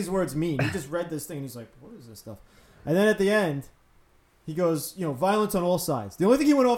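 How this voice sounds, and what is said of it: Usual voice. Nothing is said of it.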